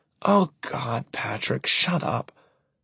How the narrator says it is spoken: she says, her voice thick and drugged

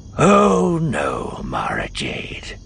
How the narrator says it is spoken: he murmured

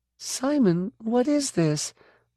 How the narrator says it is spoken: Suddenly she squealed

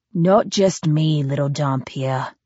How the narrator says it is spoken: he added quietly

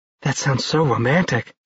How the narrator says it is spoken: she sighed

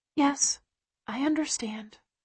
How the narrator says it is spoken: Layla says quietly

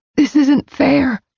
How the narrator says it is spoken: I said hoarsely, angry at everything

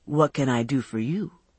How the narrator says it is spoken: he said in his velvet voice

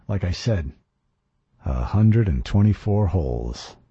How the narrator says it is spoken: I muttered

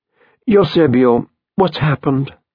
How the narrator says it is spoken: she exclaimed

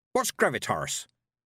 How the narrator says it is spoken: said Granny Weatherwax sharply

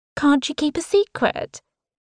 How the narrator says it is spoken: She scoffs

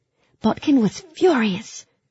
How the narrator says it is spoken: Marie exclaimed

